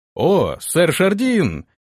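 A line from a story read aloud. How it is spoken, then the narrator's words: Feigned joyful exclamation. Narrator (Russian): изобразив радость на лице, воскликнул Антон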